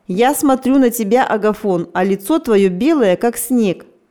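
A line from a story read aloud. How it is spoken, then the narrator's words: Remarked laughing. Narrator (Russian): смеясь заметил Степа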